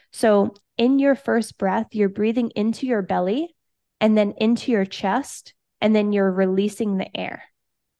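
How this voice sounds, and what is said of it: Congested, sniffly voice. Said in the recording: “I have a little bit of a cold. Well, not a cold. I have sinuses right now. So you might hear like my sniffling”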